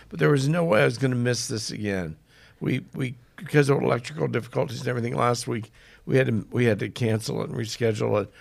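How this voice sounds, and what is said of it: Hoarse voice from a cold. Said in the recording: “I'm a little hoarse tonight. It's because I'm actually sick. I've got a cold,”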